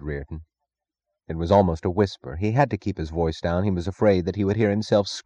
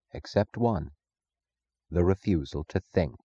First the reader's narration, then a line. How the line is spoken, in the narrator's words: Francisco said softly